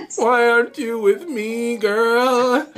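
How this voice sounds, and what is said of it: Whiny voice. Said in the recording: “I sounded like, what's his name? Slim from 112. ... whiny voice.”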